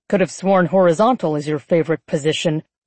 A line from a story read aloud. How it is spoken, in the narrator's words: Celian snapped